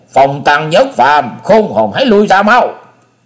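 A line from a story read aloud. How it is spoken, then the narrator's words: Shout. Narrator (Vietnamese): Túy Ma Thanh Diện thét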